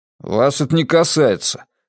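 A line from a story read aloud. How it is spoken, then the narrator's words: Grumbling. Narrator (Russian): пробурчал Матиас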